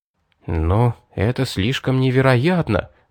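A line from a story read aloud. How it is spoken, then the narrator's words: Muttered. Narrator (Russian): пробормотал я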